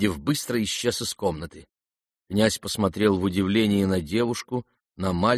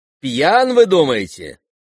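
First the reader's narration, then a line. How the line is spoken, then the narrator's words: Shout. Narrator (Russian): крикнул голос с дивана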